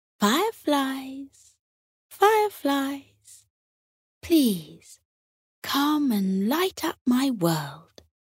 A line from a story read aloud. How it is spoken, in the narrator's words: Tilly called out, softly and gently